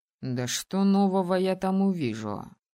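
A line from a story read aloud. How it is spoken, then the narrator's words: Skeptical snort. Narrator (Russian): хмыкнул Алисдейр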